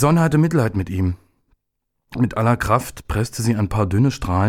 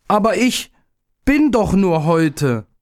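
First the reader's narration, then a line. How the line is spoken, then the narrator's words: Called out. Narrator (German): rief er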